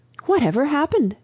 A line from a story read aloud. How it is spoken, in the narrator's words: cried Lucy